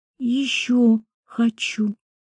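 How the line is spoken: Barely audible whisper. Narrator (Russian): прошептал еле слышно

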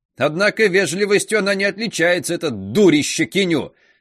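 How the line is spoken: Gleeful venting shout. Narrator (Russian): закричала она, довольная, что может отвести душу

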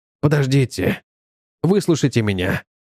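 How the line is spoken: Breathless exhale. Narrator (Russian): выдохнул

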